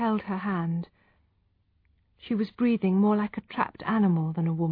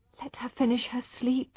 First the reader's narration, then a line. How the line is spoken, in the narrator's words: he begged in a whisper